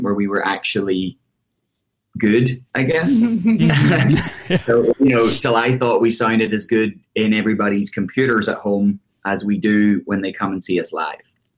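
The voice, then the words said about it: Irish accent. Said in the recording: “you have an Irish accent”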